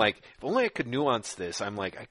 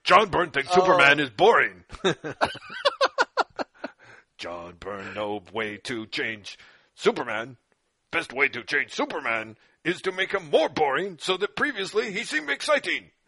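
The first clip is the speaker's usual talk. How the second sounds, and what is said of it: Cartoon villain Mojo Jojo voice. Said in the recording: “I could do a good John Byrne imitation as Mojo Jojo from the Powerpuff Girls”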